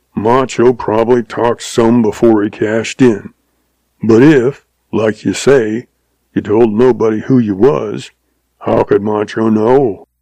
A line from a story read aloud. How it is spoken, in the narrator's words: he growled